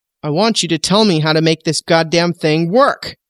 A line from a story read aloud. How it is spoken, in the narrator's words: bellows abruptly